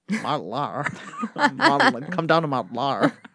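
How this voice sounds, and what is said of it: Heavy Valley girl accent. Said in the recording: “in a heavy Valley girl accent”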